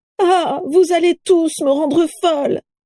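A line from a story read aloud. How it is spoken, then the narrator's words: Exclaiming. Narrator (French): s'écria Carla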